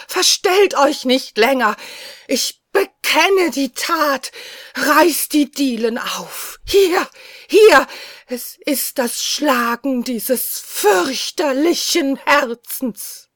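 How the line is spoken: Shout. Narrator (German): schrie ich

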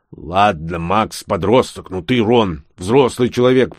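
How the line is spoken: Grumbling gnome. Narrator (Russian): продолжал ворчать гном

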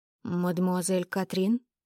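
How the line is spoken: Mumbling. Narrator (Russian): пробормотал

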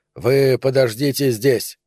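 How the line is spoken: Stern command. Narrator (Russian): строго распорядился капитан

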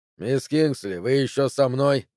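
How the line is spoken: Snorting. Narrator (Russian): хмыкнул он

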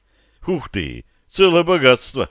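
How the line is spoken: Snorting. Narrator (Russian): хмыкнул я

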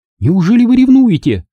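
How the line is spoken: Exclamation. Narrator (Russian): воскликнула она

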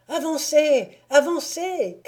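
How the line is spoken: Voices shouting. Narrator (French): criaient les voix

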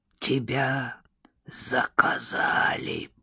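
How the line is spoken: Hoarse rasp, dead mouth. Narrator (Russian): прохрипел мертвый рот бомжа

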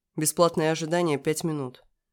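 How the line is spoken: Dry curt statement. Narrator (Russian): сухо сообщил водитель

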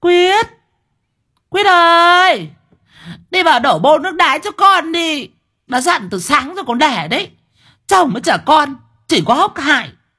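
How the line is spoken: Fierce roaring yell. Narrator (Vietnamese): có tiếng con sư tử nó rú lên ở trong nhà

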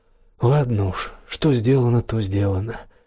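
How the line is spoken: Weary. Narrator (Russian): устало ответила Зандра

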